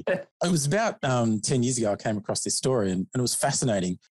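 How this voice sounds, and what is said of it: Australian accent. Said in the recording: “your Australian accent here in the states”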